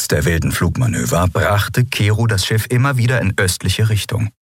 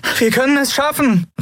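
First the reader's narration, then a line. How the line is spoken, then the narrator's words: Shouting over beeping. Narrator (German): rief sie über das ewige Piepsen des Kubus hinweg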